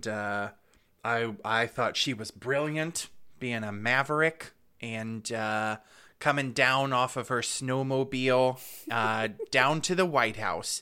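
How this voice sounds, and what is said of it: Imitates another person's voice. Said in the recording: “That's my Sarah Palin impression.”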